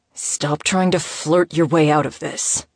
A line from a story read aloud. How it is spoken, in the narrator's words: Moses growled